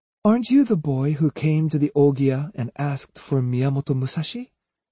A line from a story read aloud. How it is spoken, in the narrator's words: she asked gently